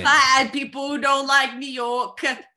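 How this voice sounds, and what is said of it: Unconvincing put-on New York accent. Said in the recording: “what's this accent that you're doing? That's not... No, it's not.”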